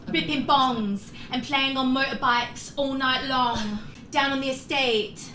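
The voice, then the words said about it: Put-on English accent, rap style. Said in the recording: “You're good at an English accent.”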